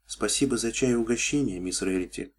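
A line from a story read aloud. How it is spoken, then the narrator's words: Quiet, holding back tears. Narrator (Russian): тихо сказала она, пытаясь сдержать дрожащую нижнюю губу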